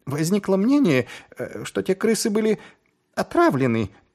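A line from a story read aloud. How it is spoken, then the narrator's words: Timid squeak. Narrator (Russian): пискнул Шнобби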